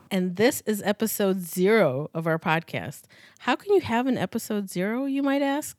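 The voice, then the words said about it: American accent. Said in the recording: “a Formula One podcast with an American accent.”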